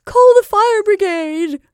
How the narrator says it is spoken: cried Mrs

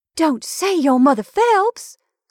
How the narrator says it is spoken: cried the young person, delightedly

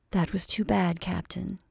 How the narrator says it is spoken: said she, speaking very gently

